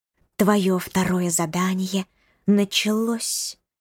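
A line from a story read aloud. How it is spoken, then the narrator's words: Snake's hiss. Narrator (Russian): прошипела проползающая мимо змея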